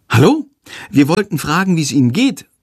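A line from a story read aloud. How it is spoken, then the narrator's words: Polite call. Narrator (German): ruft Lilli höflich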